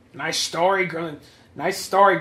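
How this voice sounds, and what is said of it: Nerdy character voice. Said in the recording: “I'm just a nerd voice.”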